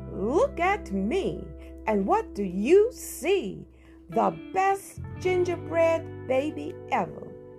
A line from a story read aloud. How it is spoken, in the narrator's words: singing in a loud voice